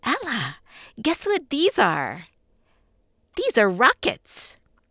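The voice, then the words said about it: Sweet, innocent child's voice. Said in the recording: “in his sweetly innocent voice”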